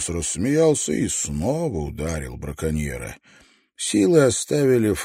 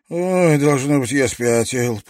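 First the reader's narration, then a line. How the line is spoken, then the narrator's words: Grumbling. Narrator (Russian): проворчал Фредди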